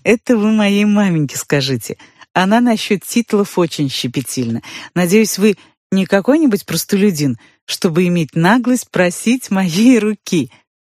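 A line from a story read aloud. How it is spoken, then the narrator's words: Laughing. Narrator (Russian): засмеялась я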